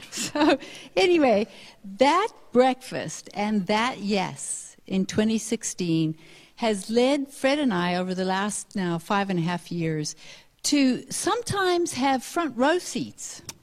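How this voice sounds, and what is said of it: Mixed American and South African accent. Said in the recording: “you'll understand from our accents that we have a little bit of American accent and a little bit of South African accent and a little bit of whatever accent”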